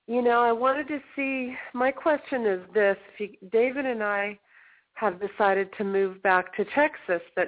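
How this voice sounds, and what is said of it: Voice rough from a cold. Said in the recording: “I've been getting over a cold ... As you can hear, my voice hasn't been too pleasant”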